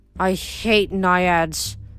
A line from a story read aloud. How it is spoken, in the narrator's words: Zoe grumbled